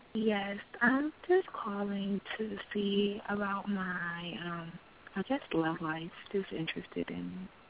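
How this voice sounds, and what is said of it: Altered, impaired speaking voice. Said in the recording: “Sorry about my voice. I just had surgery on my mouth.”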